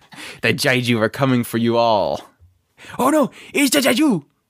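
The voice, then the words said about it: Terrible Godzilla impression. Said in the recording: “my terrible Godzilla impression.”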